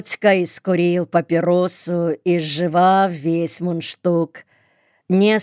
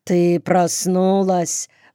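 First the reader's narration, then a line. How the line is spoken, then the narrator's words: Mumbled. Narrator (Russian): промямлил он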